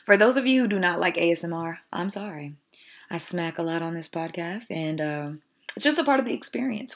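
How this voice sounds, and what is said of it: Raspy voice. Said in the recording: “Y'all need this tea for my throat. Like if you guys can hear, it's so raspy, even though I feel like that's kind of my natural voice”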